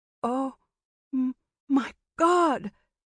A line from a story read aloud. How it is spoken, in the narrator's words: Meera cried out, her hand muffling her mouth